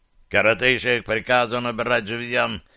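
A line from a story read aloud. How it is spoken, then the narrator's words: Barked. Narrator (Russian): рявкнул Углук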